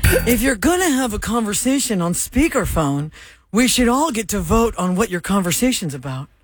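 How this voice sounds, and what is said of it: Imitates another person's voice. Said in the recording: “her Jerry Seinfeld impression... He says, what's the deal?”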